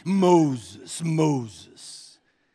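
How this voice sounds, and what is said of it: Deep booming voice. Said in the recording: “It was a deep voice, obviously”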